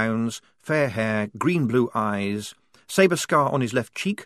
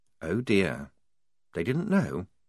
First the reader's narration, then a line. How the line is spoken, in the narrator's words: said, very quietly